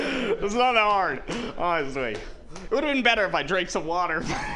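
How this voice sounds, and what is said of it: Usual voice. Nothing is said of it.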